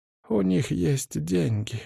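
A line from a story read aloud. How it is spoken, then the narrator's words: Dejected voice. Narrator (Russian): упавшим голосом сказала Суви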